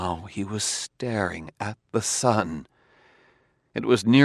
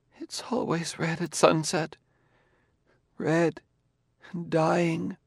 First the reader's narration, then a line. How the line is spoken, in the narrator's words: Gladiah's choked voice say drearily